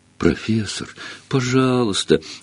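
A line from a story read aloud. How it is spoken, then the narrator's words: Pleading. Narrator (Russian): взмолилась Гермиона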